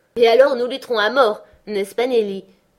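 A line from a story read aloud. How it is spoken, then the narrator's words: Laughing reply. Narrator (French): répliqua-t-elle en riant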